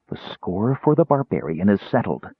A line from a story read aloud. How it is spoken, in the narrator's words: hissed out of the corner of her mouth